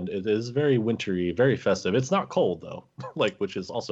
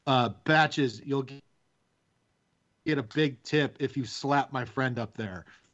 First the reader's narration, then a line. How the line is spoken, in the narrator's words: lean over to the horn and yell